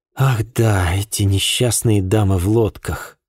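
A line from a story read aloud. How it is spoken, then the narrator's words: Sigh. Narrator (Russian): вздохнула Ма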